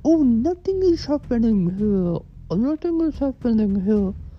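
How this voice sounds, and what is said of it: Weak put-on foreign accent. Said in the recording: “Is that her accent? ... I don't do accents very well.”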